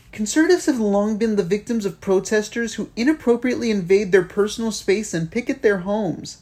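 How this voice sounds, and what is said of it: Mocking entitled Karen voice. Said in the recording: “put on my Karen voice”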